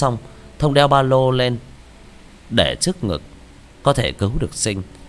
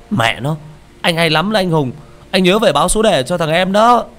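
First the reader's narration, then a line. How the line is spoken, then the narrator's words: Teeth-gritted angry shout. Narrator (Vietnamese): Hắn nghiến răng chửi lẩm bẩm vài tiếng rồi hét lên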